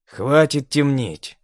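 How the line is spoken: Irritated command. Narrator (Russian): раздраженно приказал Марк

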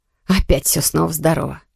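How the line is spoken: Displeased grumbling. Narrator (Russian): недовольно пробурчала Мануэла

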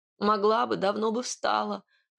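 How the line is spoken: Whimpered. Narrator (Russian): проскулила

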